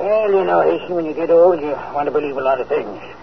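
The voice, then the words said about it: Low, hoarse laryngitis voice. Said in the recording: “You'll have to forgive me for speaking so low. ... That's a bad case of laryngitis.”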